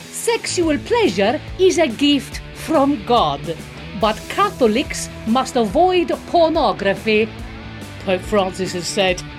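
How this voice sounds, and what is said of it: Put-on Italian accent. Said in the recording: “I'm gonna read it in an Italian accent just to be even more offensive”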